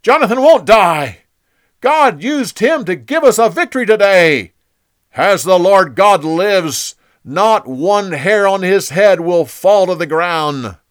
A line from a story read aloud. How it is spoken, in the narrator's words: The people shouted